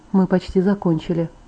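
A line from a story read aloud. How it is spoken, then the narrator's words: Whisper. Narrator (Russian): прошептал он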